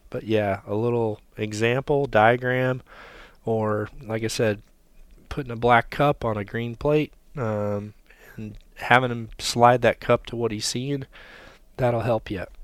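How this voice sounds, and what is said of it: Strained, congested voice. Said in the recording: “my voice is going. I'm filling up with congestion, too.”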